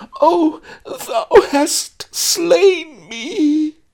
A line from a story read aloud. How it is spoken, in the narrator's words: Fainting Maid turned red, turned white, reeled, clutched her heart, and screeched